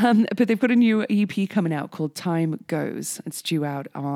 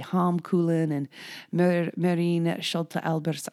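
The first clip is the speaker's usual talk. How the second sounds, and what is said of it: Put-on Dutch accent on names. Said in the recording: “I didn't need to say that in a Dutch accent, did I? Um, trying to show off”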